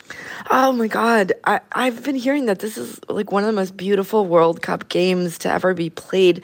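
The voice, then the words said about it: Raspy, strained voice. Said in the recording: “my voice is a little raspy. I've been screaming for like 5 hours straight.”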